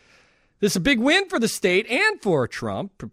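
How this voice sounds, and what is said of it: Usual voice. Nothing is said of it.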